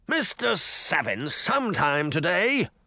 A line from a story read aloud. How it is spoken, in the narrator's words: bellowed in an English accent